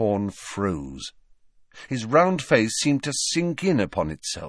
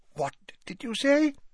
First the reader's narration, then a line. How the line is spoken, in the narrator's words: said hoarsely